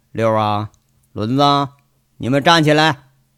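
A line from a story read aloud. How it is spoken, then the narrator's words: Flat, expressionless. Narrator (Chinese): 杨伟一副看不出表情的样子，淡淡说一句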